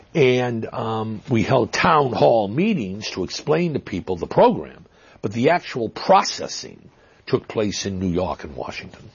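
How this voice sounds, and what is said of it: Boston accent. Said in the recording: “Is that a Brooklyn accent we're hearing? ... Boston. Boston. Some people accuse me of cultivating that accent, but really it's just I grew up in Massachusetts”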